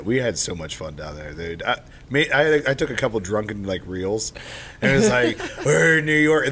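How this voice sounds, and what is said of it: Hoarse, worn-out voice. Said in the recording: “As you can't tell, I've lost my voice from drunkenly yelling in New York.”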